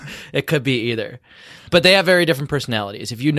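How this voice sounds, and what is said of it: Usual voice. Nothing is said of it.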